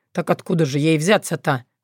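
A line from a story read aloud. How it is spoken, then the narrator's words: Skeptical snort. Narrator (Russian): хмыкнул Соколовский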